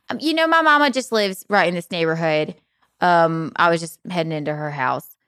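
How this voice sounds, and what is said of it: Put-on Southern accent. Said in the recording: “I put on my Southern accent”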